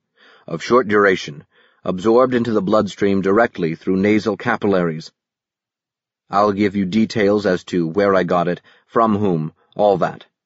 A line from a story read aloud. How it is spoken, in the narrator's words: he said thickly